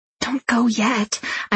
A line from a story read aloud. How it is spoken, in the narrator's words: I whisper